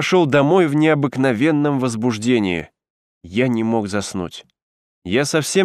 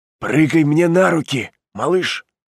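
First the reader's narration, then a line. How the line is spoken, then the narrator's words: Muffled loud whisper. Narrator (Russian): сказал приглушенным голосом, который пытался превратить в громкий шепот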